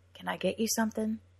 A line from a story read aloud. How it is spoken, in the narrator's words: Jem asked